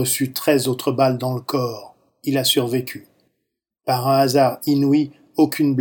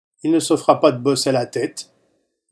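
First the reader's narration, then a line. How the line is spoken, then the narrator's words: Plain. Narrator (French): dit un soldat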